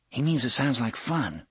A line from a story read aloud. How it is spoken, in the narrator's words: Susanna said quietly